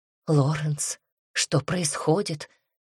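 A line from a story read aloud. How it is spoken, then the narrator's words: Trembling voice question. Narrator (Russian): дрогнувшим голосом спрашивает Диана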